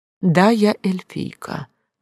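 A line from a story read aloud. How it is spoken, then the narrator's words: Calm admission. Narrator (Russian): призналась спокойно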